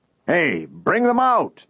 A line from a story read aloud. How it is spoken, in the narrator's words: someone shouted